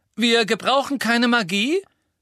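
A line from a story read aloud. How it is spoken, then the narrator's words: Loud call. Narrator (German): rief Ron laut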